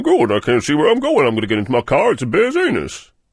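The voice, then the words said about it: Cartoon character voice of Mr. Magoo. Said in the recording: “It's quite a good impression of Mr. Magoo”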